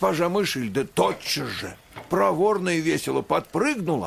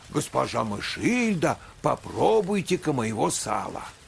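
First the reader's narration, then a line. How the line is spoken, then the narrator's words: Exclaimed. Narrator (Russian): она воскликнула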